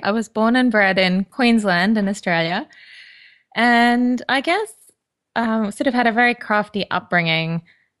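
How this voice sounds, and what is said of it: Australian accent. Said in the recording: “you can probably tell from my accent, I'm not from the UK”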